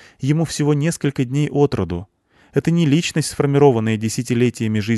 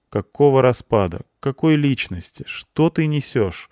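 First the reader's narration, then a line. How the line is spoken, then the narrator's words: Sigh. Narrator (Russian): Вздохнул я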